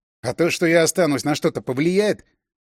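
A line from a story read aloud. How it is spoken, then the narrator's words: Reflexive snap. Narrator (Russian): Машинально огрызнулся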